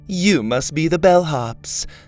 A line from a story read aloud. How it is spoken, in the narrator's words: Laney said to the guards in a snobbish tone